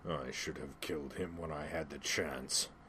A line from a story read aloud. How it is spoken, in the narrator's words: he snarled